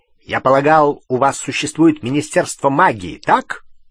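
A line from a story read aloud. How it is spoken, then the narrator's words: Sudden sharp question. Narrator (Russian): вдруг резко спросил Вернон Дурсль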